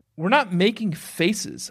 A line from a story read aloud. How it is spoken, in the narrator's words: said indignantly